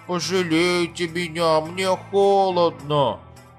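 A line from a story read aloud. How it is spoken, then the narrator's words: Squeaking and whimpering. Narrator (Russian): пища и хныкая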